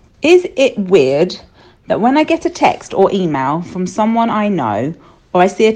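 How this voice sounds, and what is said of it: Usual voice. Nothing is said of it.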